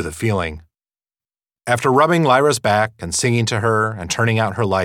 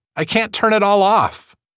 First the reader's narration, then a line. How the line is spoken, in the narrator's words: cried